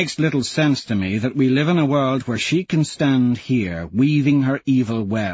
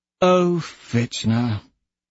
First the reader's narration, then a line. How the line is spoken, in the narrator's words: she sighs